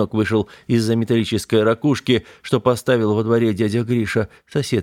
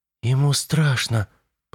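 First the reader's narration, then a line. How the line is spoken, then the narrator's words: Whisper. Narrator (Russian): прошептала Юля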